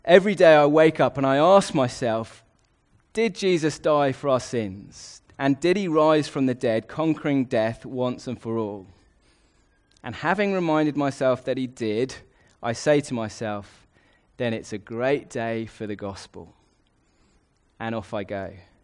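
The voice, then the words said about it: Put-on English accent. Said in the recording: “I'll do it in an English accent for your sakes”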